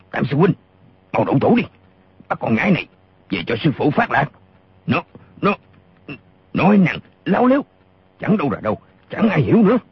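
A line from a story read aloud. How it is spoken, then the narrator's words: Furious shout. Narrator (Vietnamese): Gã lùng càng giận điên lên, y quát to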